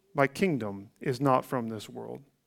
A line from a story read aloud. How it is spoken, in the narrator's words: with the quiet tranquility of a triumphant Christ who said calmly